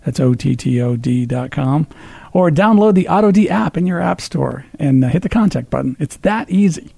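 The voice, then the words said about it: Strong radio announcer voice. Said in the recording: “you have the radio voice going. It's strong. It's very strong.”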